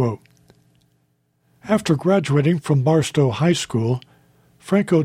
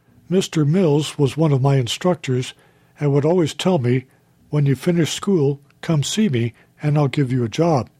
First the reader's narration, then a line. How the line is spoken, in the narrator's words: he said